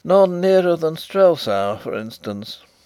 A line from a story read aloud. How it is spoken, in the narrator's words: said poor Fritz with a lovelorn sigh